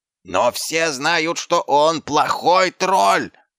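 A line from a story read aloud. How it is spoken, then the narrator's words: Yelling. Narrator (Russian): завопил руки сила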